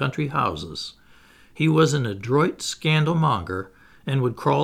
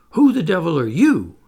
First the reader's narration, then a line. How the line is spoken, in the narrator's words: he gasped